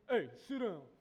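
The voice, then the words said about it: Stern fatherly dad voice. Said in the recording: “dad voice”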